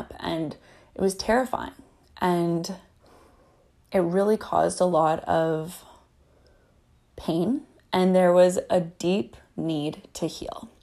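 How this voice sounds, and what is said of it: Shaky, emotional voice. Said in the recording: “my voice gets a little shaky talking about these times in my life”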